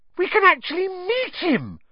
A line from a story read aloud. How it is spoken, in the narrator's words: Hermione squealed